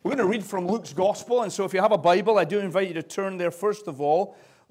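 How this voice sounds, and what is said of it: Scottish accent. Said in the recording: “the frequency of my accent ... this is the Scottish accent ... It's kind of obvious that I have an accent.”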